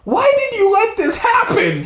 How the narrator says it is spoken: screamed at her

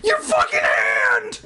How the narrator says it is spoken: shrieked

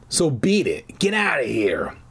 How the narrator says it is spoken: the voice growled

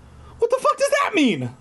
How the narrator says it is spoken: I cried

